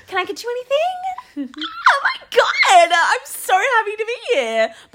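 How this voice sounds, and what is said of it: Put-on British customer service voice. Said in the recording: “your customer service voice is a bit British ... But British.”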